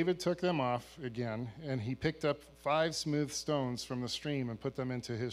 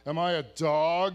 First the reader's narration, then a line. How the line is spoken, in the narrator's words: he roared at David